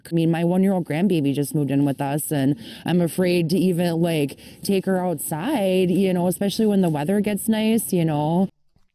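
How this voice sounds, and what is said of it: Minnesota accent. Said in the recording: “that sounds like Minnesota ... It's one of my favorite accents ... it's like hybrid Canadian American ... Fargo”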